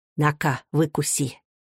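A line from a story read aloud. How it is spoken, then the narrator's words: Whispered. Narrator (Russian): шептала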